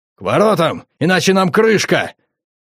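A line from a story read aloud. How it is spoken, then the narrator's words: Shouting. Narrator (Russian): Лейн закричал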